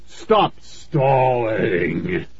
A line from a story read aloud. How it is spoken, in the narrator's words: he rasped